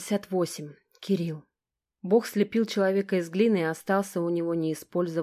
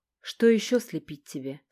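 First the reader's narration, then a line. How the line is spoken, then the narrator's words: Plain. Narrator (Russian): спросил Бог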